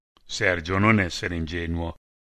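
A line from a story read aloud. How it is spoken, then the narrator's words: Sad reply. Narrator (Italian): risposi tristemente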